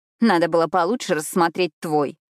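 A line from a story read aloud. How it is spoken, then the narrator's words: Grumbling. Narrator (Russian): проворчала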